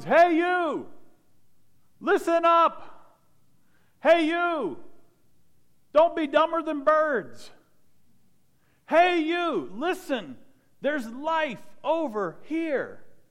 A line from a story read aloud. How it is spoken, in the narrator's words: She's shouting at the top of her lungs